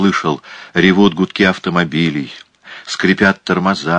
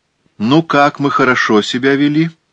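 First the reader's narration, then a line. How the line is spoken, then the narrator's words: Cheerful question. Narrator (Russian): спросила она бодро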